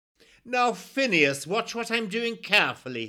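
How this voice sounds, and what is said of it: Plummy upper-class English accent. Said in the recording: “he commanded in his plummiest accent.”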